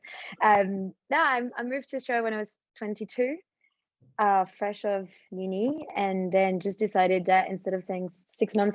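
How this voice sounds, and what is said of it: Slight French accent. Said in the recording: “There's obviously a bit of a foreign twang there... my foreign twang comes from France... my Aussie is becoming better and better... I've lost apparently my very strong French accent”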